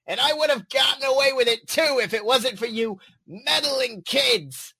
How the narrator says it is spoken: Control Freak bellowed

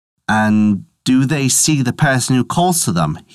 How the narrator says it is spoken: he asked

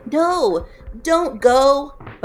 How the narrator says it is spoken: Toggle shouted

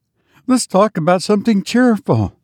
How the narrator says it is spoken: cried the old man

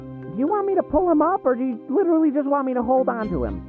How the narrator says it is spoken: her voice muffled through the slate say

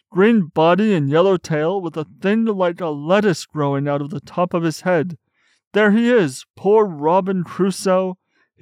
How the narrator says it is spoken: cried Scrooge

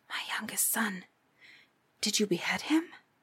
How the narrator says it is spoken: asked in a whisper

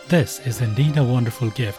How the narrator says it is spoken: said Perseus

